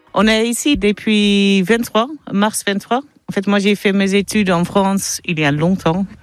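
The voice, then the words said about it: Dutch accent speaking French. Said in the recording (French): “ont l'accent néerlandais”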